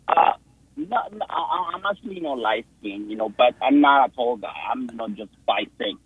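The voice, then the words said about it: Non-native accented English. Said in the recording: “You have an accent though, right?”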